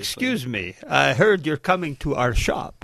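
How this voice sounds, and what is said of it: Terrible put-on Romanian accent. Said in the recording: “I put on my best debonair Romanian accent ... which was terrible, obviously ... Didn't realize you were Dracula.”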